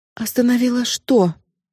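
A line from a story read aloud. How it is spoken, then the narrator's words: Trembling question. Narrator (Russian): дрожащим голосом спросила Нита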